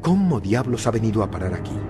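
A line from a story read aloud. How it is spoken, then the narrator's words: Murmur. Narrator (Spanish): oírle murmurar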